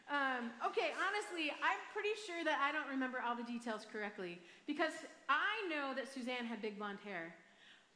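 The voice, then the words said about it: Michigan accent. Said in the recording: “I have a Michigan accent. It's not that pretty.”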